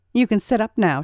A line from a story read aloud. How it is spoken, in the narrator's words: said